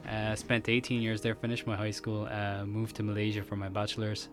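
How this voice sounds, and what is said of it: Varied accent with American tinge. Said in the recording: “your accent is like varied. I'm catching a little bit of American in there as well.”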